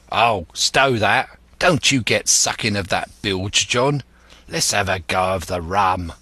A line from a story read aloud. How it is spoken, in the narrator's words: the voice of Hans exclaimed